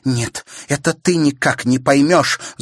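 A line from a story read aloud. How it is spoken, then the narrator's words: Angry shout. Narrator (Russian): злобно крикнула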